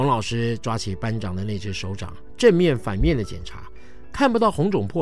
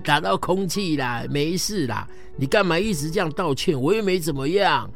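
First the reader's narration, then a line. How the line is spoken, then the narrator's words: Laughing. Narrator (Chinese): 班长笑起来说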